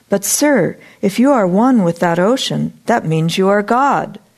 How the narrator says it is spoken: Debbie cried excitedly

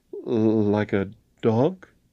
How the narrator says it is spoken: faltered

